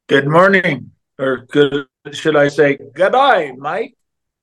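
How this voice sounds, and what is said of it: Put-on Australian accent. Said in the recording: “speaking Australian”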